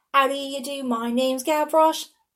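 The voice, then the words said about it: Sung, poor put-on English accent. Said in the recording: “very horrible English accent”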